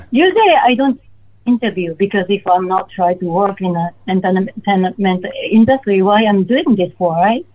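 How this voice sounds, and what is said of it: Non-native accented English. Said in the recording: “I speak Cantonese, I speak Japanese, and I speak English with my accent.”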